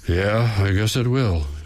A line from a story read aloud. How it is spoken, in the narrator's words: he says, letting out a deep sigh